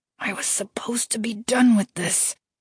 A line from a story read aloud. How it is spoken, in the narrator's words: Aaron said through gritted teeth